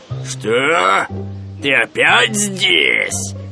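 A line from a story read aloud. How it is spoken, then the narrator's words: Bear's growl. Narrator (Russian): зарычал медведь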